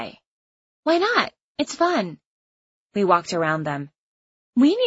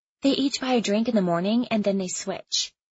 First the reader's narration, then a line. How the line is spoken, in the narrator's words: Isabel whispered